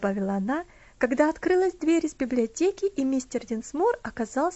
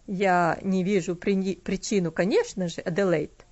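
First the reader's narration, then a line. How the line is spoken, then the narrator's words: Dry. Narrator (Russian): сухо сказал он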